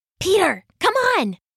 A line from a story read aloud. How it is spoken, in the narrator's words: Sasha whispered from the front door